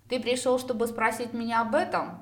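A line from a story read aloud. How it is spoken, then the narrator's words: Mocking. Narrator (Russian): Насмешливо уточнил я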